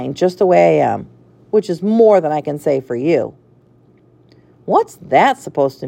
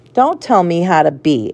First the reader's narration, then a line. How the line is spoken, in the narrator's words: Alice snapped